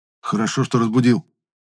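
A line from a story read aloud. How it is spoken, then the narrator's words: Praising. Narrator (Russian): похвалил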